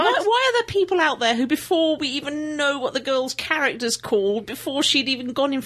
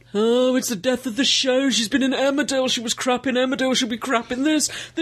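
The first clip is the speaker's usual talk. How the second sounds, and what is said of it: Imitates other people's voices. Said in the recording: “That's a very good impersonation. ... I applaud that impersonation. ... That's very good.”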